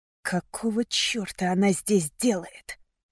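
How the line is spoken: Hissing. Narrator (Russian): раздалось шипение

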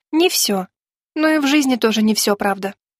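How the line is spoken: Sad sigh. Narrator (Russian): грустно вздохнула Женя

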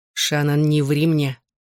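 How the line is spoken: Growling. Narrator (Russian): зарычал он

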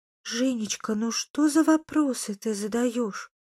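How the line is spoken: Timid interjection. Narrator (Russian): робко вмешалась тетя Мила

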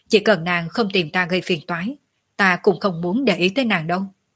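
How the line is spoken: Cold speech. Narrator (Vietnamese): Tiểu Lôi lạnh lùng nói

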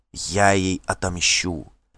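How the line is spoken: Whispered. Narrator (Russian): шепнула Дагейда

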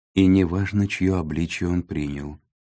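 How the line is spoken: Calm young woman. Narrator (Russian): спокойно закончила девушка

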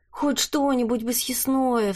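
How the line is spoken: Pleading. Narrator (Russian): взмолилась Лия

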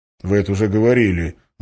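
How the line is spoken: Curt mutter. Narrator (Russian): буркнул Валентин

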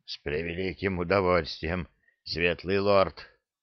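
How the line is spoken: Strained wheeze. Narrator (Russian): с трудом прохрипел тот

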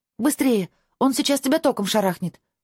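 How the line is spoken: Quick shout. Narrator (Russian): быстро крикнула я

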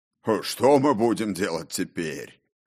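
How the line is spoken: Smug deep bass chuckle. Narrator (Russian): Самодовольно хохотнул обладатель звучного баса

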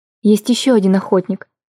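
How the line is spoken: Quiet recollection. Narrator (Russian): вспомнила я тихо

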